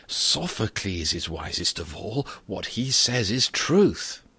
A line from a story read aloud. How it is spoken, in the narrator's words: the people, who had listened eagerly, murmured